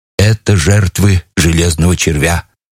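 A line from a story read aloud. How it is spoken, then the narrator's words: Muffled voice. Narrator (Russian): сказал глухим голосом артиллерийский офицер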